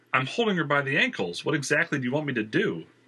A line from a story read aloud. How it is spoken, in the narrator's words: Christian exclaimed, exacerbated